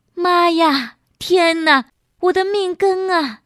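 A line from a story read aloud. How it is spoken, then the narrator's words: Heart-wrenching wailing. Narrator (Chinese): 丁婉妹一声揪心揪肺的哭声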